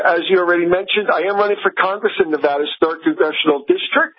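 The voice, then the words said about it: New Jersey accent. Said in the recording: “you are very much a New Jersey accent guy. You sound like you're from Jersey.”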